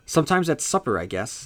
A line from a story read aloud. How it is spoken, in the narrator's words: Eddie said